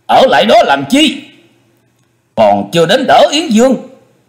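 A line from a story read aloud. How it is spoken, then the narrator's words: Strained shout. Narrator (Vietnamese): Chu Quyền không khỏi chật vật, y quay đầu lại quát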